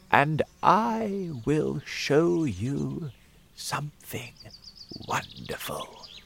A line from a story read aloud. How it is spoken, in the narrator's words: said in a slow voice